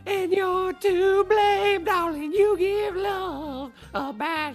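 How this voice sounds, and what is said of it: Singing in falsetto. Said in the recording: “Wow, that's pretty good. A little falsetto there ... Not bad.”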